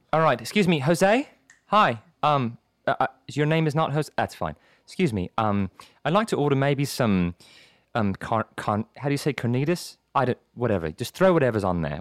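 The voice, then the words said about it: Put-on British accent. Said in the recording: “I love your British accent, okay? I've seen your skits that you do with your British accent”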